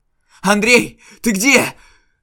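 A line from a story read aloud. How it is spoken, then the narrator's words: Yelling. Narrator (Russian): заорал Артём в никуда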